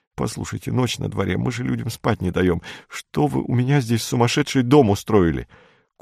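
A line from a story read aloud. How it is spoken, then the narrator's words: Strangled whisper. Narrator (Russian): Курдюков сдавленным шепотом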